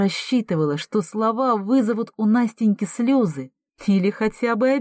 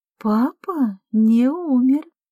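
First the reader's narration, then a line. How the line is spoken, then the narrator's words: Deliberately slow, barely controlled speech. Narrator (Russian): нарочито медленно произнесла она, будто едва управляла собственным языком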